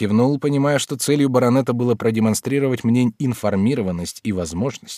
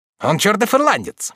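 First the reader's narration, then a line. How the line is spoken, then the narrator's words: Muffled exclamation. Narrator (Russian): приглушенно воскликнул Ламберт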